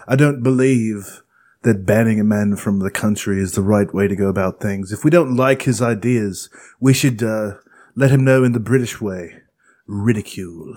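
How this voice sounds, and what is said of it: Put-on British accent. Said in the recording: “my great British accent ... Pretty sounds good. ... Like you've been working on it.”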